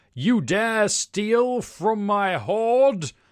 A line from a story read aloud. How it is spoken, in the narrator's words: He roars